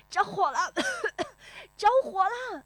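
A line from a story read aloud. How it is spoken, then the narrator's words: Coughing shout. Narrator (Chinese): 好像是有人咳嗽着喊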